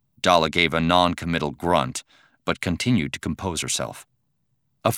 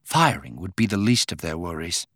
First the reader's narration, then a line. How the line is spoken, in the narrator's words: Dala said quietly